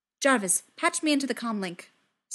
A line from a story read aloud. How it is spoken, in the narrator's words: Steve snaps